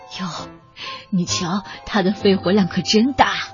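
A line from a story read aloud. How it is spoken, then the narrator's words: Amazed exclamation. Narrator (Chinese): 他们会惊叹的说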